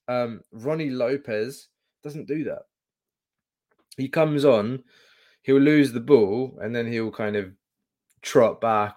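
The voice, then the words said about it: Sore, strained voice. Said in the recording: “My voice is still killing me from Thursday, man.”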